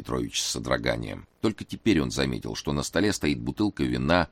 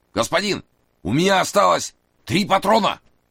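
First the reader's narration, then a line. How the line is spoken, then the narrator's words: Shouted. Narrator (Russian): крикнул Масса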